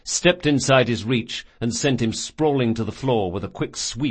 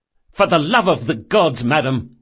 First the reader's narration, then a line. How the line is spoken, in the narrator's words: snapped Locke